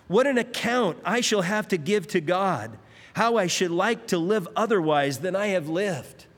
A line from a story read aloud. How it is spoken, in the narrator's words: Philip, the king of France, he cried out on his deathbed